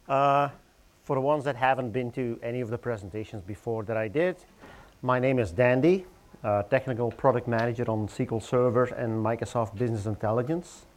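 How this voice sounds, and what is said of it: Belgian accent. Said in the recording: “As you can probably hear from my accent ... I grew up in Belgium”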